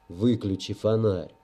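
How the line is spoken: Boy's muttered grumble. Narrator (Russian): буркнул мальчик

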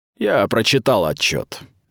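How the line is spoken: Contemptuous. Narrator (Russian): презрительно сказал инквизитор

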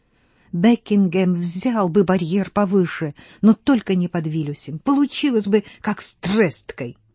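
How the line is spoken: Anxious, through clenched teeth. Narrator (Russian): Панна Рита, беспокойно вздрагивала, цедя сквозь зубы

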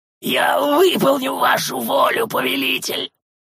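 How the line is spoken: Hoarse, trembling breath. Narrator (Russian): Хрипло выдохнул трясущийся Гирра

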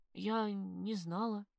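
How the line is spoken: Stammering whisper. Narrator (Russian): заикаясь, прошептала я

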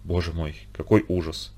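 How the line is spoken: Quiet whisper, grinding teeth. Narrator (Russian): скрипел зубами и тихо шептал

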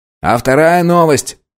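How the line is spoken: Shouted out. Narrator (Russian): выкрикнул пятый

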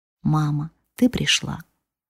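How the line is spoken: Sleepy whisper in ear. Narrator (Russian): не просыпаясь и не открывая глаз, шептал на ушко

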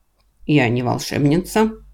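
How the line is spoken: Stern woman's voice. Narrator (Russian): строго говорит женщина

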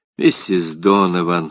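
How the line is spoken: Quiet. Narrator (Russian): сказал я негромко

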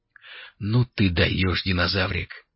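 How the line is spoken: Muttered. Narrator (Russian): пробормотал Алири

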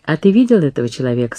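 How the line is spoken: Plain. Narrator (Russian): спросила Катрин

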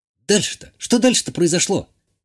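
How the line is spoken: Impatient exclamation. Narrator (Russian): нетерпеливо воскликнула Иштания

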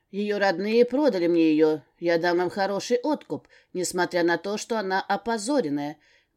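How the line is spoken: Loud indignant. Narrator (Russian): громким голосом возмущался Амбал

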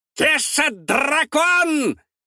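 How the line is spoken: Creature screeching. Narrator (Russian): вопит химероид

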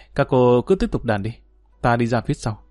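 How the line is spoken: Unhappy sighing. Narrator (Vietnamese): Dương Lăng cảm thấy không vui, thở dài nói

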